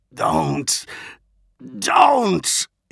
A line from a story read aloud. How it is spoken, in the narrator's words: he managed to splutter